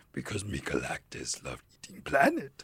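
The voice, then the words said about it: Galactus character voice, turning Yoda-like. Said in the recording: “my Galactus impression ... that got a little Yoda-y at the end”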